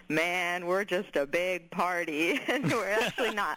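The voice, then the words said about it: Imitates another person's voice. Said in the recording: “You do a good impersonation.”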